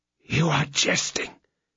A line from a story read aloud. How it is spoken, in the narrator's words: said, in a hoarse voice